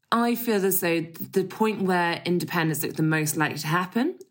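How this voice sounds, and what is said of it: English accent, not Scottish. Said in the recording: “born in Scotland ... my accent doesn't suggest it, perhaps, from my English parents.”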